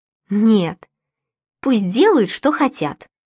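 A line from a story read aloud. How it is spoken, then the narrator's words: Angry reply. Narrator (Russian): сердито ответил Яиром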